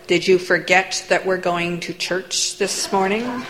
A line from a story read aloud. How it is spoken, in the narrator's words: Through gritted teeth